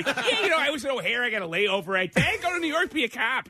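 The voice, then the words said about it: Dennis Franz impression, thick Chicago accent. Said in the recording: “the most pure Chicago accent is weirdly Dennis Franz from NYPD Blue ... That accent doesn't come out. I mean, you have to have, like, born in a bear sweater to talk like that.”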